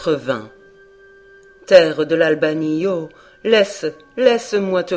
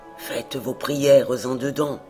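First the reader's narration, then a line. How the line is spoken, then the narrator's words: Murmur. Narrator (French): murmura-t-il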